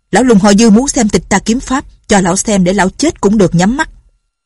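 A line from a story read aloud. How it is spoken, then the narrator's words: Loud reply. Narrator (Vietnamese): Lâm Bình Chi lớn tiếng trả lời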